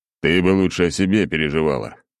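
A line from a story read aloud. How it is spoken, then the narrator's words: Snorting reply. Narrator (Russian): хмыкнул в ответ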